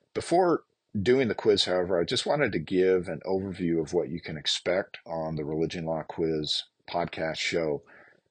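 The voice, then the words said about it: Deep, raspy voice from a cold. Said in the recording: “I have a bit of a virus, a bit of a cold, and so you are getting the deep, raspy voice”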